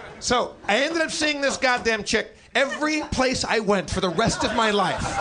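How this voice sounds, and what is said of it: Usual voice. Nothing is said of it.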